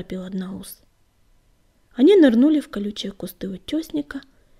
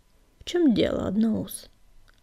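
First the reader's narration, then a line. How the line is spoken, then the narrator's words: Calm, impassive question. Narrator (Russian): спокойно и бесстрастно спросил Звездный луч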